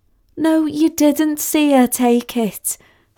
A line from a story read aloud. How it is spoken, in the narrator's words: said Sally wearily